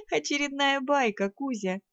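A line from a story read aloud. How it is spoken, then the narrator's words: Chuckling. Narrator (Russian): хохотнула я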